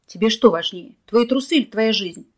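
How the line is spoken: Exhausted barking shout. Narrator (Russian): гаркнул Николай, выбиваясь из сил

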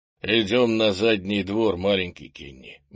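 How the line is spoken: Gloomy. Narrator (Russian): мрачно ответил Крис

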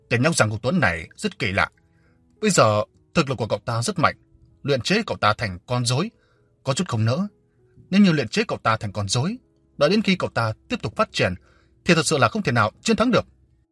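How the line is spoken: Cold, grim. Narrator (Vietnamese): sắc mặt trầm lại, lạnh lùng nói

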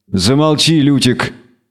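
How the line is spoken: Grumbling. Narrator (Russian): проворчал ведьмак

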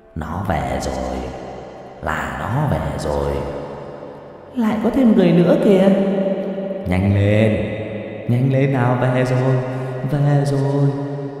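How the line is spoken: Repeated muttering. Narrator (Vietnamese): miệng cứ lẩm bẩm

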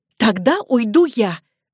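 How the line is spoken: Desperate exclamation, young woman. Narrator (Russian): воскликнула девушка, в отчаянии

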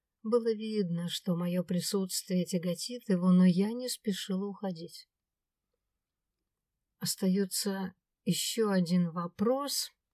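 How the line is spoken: Quiet. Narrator (Russian): тихо произнесла я

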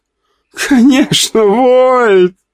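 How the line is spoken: Drawn-out drawl. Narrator (Russian): протянула девушка

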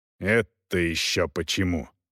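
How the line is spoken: Angry question. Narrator (Russian): зло спросил Волков

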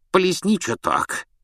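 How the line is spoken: Hoarse giggle. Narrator (Russian): хрипло хихикнула она

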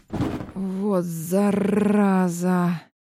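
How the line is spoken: Pained hiss. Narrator (Russian): прошипел Подестов, морщась

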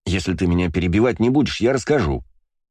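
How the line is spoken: Snapping retort. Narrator (Russian): огрызнулся Астарот

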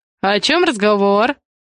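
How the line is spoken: Cheerful question. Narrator (Russian): весело поинтересовался Алексей Самойлов

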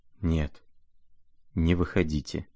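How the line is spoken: Breathless whisper. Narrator (Russian): прошептал он, наконец, и с усилием перевел дух

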